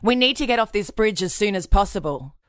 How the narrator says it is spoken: saying loudly

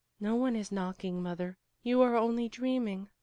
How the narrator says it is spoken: said Veronica sadly

